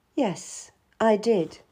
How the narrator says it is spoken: I said softly

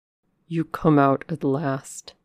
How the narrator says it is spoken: he said

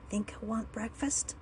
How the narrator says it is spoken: he whispered

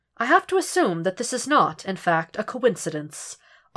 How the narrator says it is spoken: Obi-Wan asks dryly

